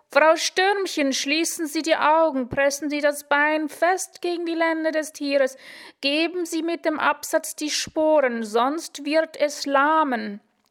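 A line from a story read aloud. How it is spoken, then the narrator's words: Loud shout. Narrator (German): Laut schrie er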